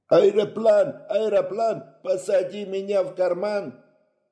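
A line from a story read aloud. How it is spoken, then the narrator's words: Ecstatic group yelling. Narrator (Russian): Восторженно вопил он вместе со всеми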